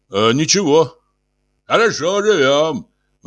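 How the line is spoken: Exclaiming. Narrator (Russian): воскликнул отец

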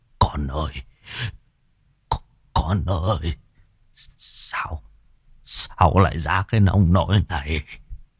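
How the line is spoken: Stammering in shock, old man. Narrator (Vietnamese): Gương mặt của ông trắng bạch cắt không còn giọt máu, lắp bắp

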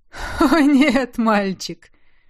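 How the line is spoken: Sudden laugh. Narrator (Russian): Неожиданно рассмеялся Тизар

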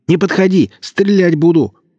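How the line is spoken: Shouting. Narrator (Russian): закричал Марадонна

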